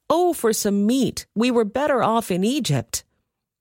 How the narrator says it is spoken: You were whining, when you cried

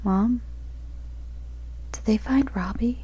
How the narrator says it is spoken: My voice was shaky

